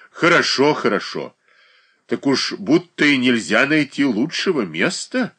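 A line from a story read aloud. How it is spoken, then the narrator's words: Tender, excited. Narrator (Russian): нежно промолвил Свищев Катерине Александровне, в волнении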